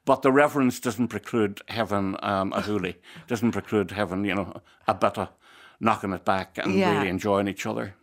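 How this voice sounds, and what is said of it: Irish accent. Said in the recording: “I love your accent.”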